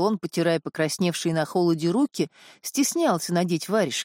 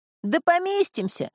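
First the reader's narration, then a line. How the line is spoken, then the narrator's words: Cheerful shout. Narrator (Russian): весело крикнул Уолчик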